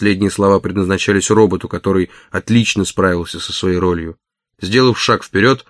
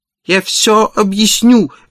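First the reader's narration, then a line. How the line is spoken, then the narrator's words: Desperate pleading. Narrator (Russian): в отчаянии взмолился он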